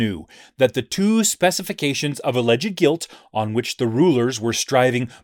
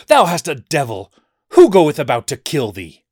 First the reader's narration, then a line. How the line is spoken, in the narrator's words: in the spirit of this blasphemous slander, they cried out